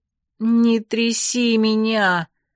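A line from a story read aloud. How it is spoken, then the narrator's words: Moaning. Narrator (Russian): простонала я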